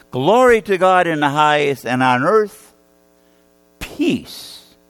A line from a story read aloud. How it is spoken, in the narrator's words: a choir of angels singing out loudly